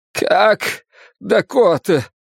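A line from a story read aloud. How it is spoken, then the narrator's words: Strangled voice. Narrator (Russian): спросил он сдавленным голосом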